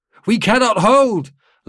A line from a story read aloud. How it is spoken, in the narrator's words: Lalink shouted